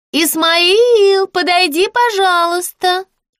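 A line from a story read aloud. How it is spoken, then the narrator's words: High singsong into speaking tube. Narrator (Russian): пропела она тонким голоском в переговорную трубку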